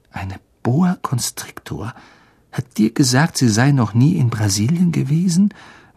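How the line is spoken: Quiet repetition. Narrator (German): wiederholte mit leiser Stimme

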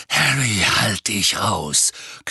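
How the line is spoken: Growling. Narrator (German): knurrte Sirius

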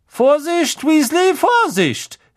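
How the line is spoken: Call. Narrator (German): rief Professor Sprout

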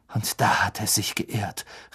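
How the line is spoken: Calling out. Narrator (German): rief Harry

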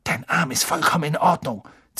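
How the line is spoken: Hissed. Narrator (German): zischte er Malfoy zu

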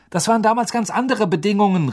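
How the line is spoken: Agitated call. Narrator (German): rief Wood mit leicht hervorquellenden Augen

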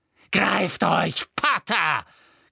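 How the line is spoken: Shrieking. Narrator (German): kreischte Bellatrix

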